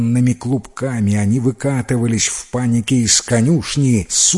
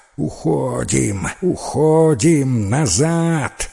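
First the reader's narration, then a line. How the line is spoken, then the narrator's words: Snakes hissing all around. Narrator (Russian): шипели со всех сторон змей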